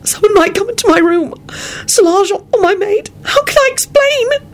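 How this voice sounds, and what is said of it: Anguished wailing voice. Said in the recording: “Elizabeth wailed ... She broke off in an anguished voice.”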